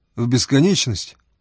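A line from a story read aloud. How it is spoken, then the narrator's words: Plain question. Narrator (Russian): спросил Фома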